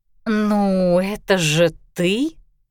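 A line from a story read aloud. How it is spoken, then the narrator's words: Drawn out, indescribable tone. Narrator (Russian): протянула подруга непередаваемым тоном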